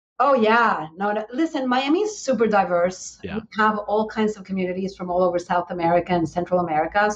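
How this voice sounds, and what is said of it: Venezuelan Spanish accent in English. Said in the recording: “I am originally from Venezuela ... English is my second language. That explains the accent.”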